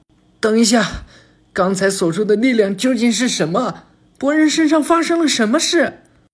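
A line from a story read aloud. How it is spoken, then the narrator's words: Shouted. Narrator (Chinese): 佐良娜喊道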